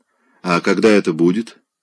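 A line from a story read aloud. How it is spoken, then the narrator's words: Dry question. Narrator (Russian): сухо спросил он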